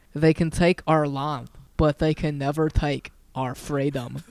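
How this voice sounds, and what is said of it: Put-on Scottish accent. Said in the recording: “That has Scottish people in it too... That's a tough accent... It is like one of the hardest ones”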